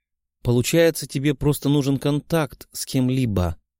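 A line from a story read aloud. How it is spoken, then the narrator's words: Sad. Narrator (Russian): печально произнесла девушка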